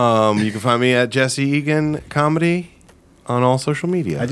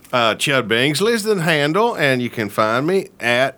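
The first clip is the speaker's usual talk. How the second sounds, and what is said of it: Put-on character accent. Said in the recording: “I could drop the accent.”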